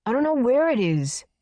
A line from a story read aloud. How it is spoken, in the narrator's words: the boy shouted